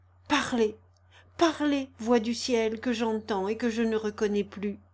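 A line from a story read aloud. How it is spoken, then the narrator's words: Muffled murmur. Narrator (French): murmura-t-il en accents étouffés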